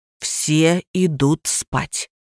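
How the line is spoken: Hissed. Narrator (Russian): зашипел Костин

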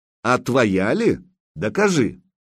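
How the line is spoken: Angry snuffle. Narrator (Russian): Косматый засопел сердито

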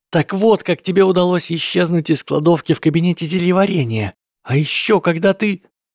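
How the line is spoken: Indignant, almost shouting. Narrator (Russian): от нахлынувшего возмущения чуть ли не закричала

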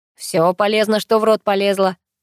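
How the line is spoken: Grumbling. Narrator (Russian): проворчал Герман

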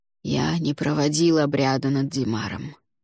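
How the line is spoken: Muffled, hollow. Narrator (Russian): глухо произнес Алвар

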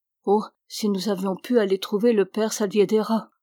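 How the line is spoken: Sighing. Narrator (French): soupira Ramona

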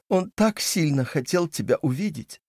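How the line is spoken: Sobbing mother. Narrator (Russian): всхлипнула мама

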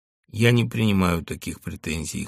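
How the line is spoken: Cold. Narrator (Russian): холодно сказал Маляев

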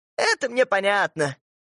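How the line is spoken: Laughing mother. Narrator (Russian): мамаша засмеялась

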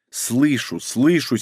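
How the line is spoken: Angry grumble. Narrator (Russian): сердито проворчала Ольга

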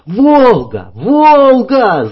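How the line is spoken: Clearer yelling. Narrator (Russian): заорал более членораздельно Фирс

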